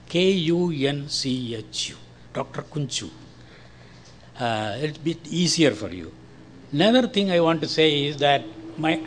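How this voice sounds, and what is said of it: Indian English accent, slight British slant. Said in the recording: “this is an Indian accent ... it will have a British, little slant towards British accent, but not entirely. Our own local accent also will be there”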